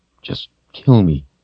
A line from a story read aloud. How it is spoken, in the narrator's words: Richard said in a weak voice